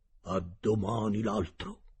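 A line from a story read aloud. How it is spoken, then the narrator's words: Cook speaking quietly. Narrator (Italian): il cuoco disse a bassa voce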